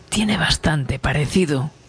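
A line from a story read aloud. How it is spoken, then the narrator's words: Murmuring. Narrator (Spanish): murmuraba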